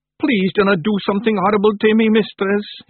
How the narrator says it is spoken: he begged

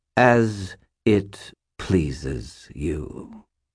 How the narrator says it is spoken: the skull replied, speaking noticeably more slowly than a moment before

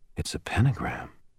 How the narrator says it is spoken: said quietly

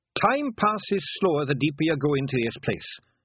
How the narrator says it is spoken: said Rob Anybody quickly

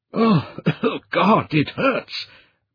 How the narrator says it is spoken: Brendan coughed again, a hoarse croaking sound

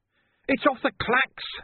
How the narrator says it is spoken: he yelled

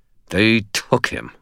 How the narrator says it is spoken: I spat

